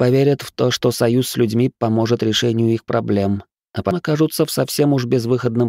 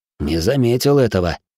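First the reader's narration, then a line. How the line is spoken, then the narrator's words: Snort. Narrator (Russian): хмыкнул Доминик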